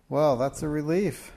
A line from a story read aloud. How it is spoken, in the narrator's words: Francis sighed contentedly